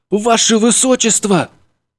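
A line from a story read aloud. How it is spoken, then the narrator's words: Agitated. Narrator (Russian): взволнованно начал Николай Григорьевич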